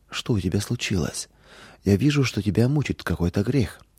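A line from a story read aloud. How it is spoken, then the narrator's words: Gentle motherly question. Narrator (Russian): мама мягко спросила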